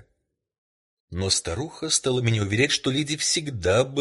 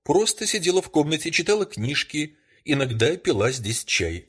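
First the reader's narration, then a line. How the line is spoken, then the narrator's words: Plain. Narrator (Russian): ответила женщина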